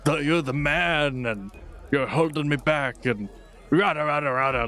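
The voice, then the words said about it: Bad impression, sounds like a hippie. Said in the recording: “that was ... if he was more smoot ... that was a really bad impression of yourself ... Why did you sound like a hippie?”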